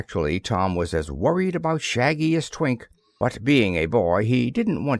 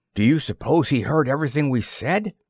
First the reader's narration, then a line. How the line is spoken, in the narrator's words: exclaimed Tom